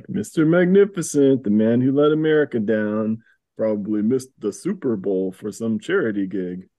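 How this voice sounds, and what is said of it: Canadian lunkhead accent. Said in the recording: “Canadian accent, I guess... Canadian lunkhead... one of the goons on the team”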